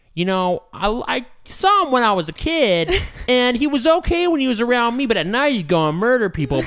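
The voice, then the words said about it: Nasally Californian surfer accent. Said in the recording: “incredibly nasally surfer bro accent, this is my natural voice”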